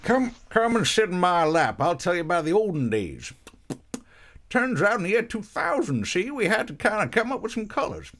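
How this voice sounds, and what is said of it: Old American storyteller voice. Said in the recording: “my impression of what uh, old versions of Americans sound like”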